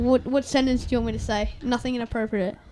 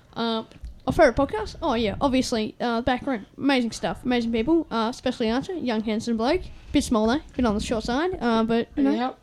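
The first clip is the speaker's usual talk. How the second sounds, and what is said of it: Imitates another person's voice. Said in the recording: “I do a pretty mean ScoMo impression”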